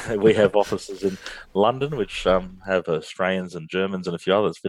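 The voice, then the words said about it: Australian accent. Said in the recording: “if you can't tell by my accent, I'm from Australia”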